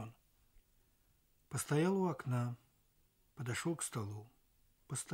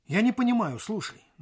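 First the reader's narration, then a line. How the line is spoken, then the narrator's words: Stern. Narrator (Russian): начал он строго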